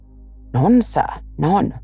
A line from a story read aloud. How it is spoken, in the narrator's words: said Frankland